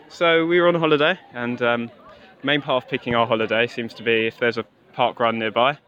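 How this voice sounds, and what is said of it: English accent. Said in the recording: “you're English with your accent.”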